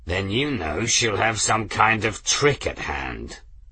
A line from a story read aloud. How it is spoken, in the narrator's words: the pilot growled